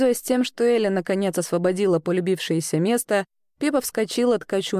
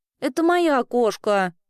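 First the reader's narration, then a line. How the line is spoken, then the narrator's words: Offended remark. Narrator (Russian): обиженно заметила Эльга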